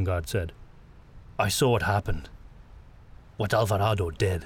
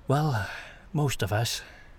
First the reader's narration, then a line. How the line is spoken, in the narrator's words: Gustav sighed